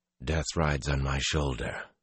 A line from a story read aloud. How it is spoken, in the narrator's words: Luz Theron muttered